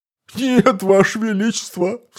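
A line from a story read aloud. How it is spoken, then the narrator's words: Sobbing. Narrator (Russian): всхлипнул министр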